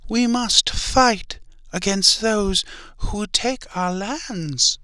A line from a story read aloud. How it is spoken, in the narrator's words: screamed